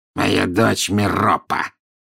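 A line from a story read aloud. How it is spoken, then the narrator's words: Reluctant mutter. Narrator (Russian): неохотно буркнул Мракс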